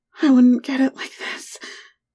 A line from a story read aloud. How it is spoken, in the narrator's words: she replied breathlessly